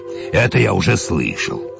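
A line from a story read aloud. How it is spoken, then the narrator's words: Snort. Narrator (Russian): фыркнул повар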